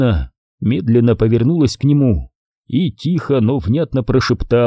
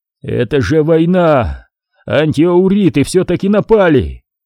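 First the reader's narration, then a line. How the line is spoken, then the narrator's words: Loud cry. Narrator (Russian): громко вскричал Вадим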